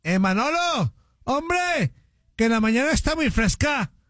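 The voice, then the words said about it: Put-on Spanish (Spain) accent. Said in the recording (Spanish): “acento español, por favor”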